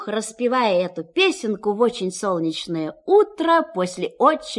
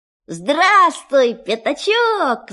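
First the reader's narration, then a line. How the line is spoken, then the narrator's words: Shout. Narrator (Russian): закричал Винни-Пух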